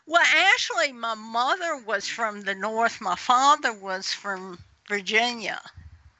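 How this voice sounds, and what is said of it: American Southern accent. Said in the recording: “you sound like you have a southern accent ... Definitely southern.”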